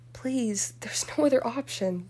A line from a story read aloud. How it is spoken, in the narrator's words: Daphne begged her